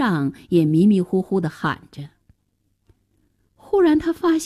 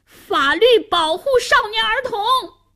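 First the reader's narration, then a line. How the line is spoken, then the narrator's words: Struggling shout. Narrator (Chinese): 夏楠挣扎着喊道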